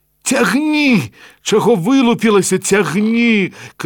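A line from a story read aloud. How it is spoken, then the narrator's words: Shout. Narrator (Belarusian): крыкнув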